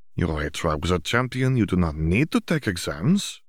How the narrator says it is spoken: Fleur reminded her, though her tone made clear that she understood that whether they were needed was beside the point

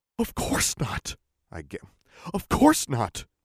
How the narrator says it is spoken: I gasped

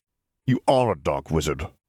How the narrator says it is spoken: Smith snapped

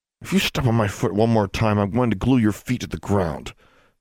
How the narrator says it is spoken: she hissed at him

